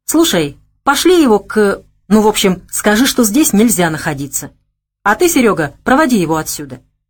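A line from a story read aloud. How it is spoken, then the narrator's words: Angry command. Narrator (Russian): сердито приказал Константин замыкающему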